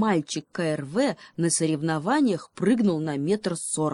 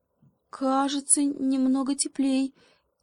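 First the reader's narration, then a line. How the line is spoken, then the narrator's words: Uncertain monkey reply. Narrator (Russian): неуверенно ответила обезьянка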